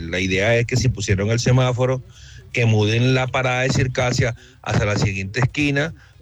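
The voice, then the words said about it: Strong flavorful regional accent. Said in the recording (Spanish): “con ese acento le solucionamos el problema que sea ... con ese acento puro sabor y sabrosura”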